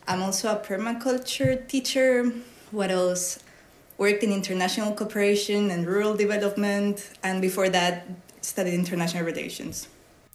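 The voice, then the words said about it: Spanish accent in English. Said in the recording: “I am Spanish, so I hope you enjoy the accent.”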